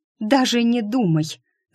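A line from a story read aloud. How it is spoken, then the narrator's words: Angry interruption. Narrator (Russian): зло оборвала его Шу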